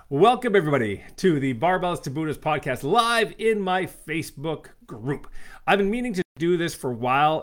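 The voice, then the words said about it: Sick-sounding voice. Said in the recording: “If you can tell by my voice, I have been very, very sick”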